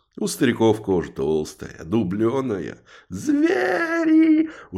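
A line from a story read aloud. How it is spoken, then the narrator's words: Shrieking. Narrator (Russian): уже визжал тот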